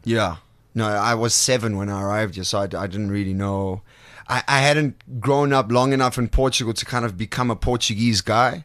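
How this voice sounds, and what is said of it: Funny, unusual accent. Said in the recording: “You've also developed this funny accent, which is very unique to you ... I haven't heard anyone else who sounds like you ... Nice accent, but it is different. So obviously that comes from having learned English later on.”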